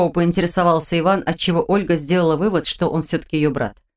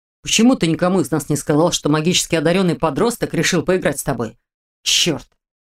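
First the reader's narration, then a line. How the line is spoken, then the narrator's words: Sudden growl. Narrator (Russian): Вдруг прорычал Дементьев, закрывая лицо руками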